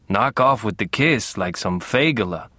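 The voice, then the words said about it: Raspy thick Middle European accent. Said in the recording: “she rasped, with her thick Middle European accent”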